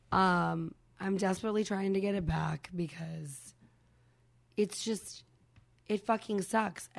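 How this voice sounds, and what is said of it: Hoarse, nearly lost voice. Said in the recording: “So now I've lost my voice.”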